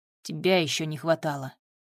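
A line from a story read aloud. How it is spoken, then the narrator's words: Hoarse wheeze. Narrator (Russian): просипел он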